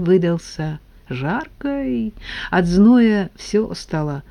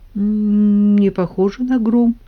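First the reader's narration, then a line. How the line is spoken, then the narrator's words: Uncertain reply. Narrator (Russian): неуверенно ответил Коля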